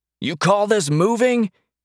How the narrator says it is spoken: he shouted over the storm

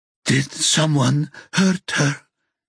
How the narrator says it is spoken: She asks in a ragged voice

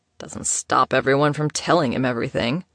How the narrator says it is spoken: grumbled Killian

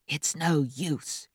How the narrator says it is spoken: he stage whispered to Africano

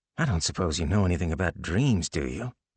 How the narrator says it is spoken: Rick spoke in a soothing voice

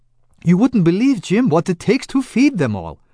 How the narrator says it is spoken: exclaimed

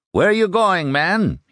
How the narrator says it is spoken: he shouted at one retreater

